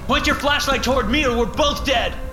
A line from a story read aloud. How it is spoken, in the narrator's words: I shout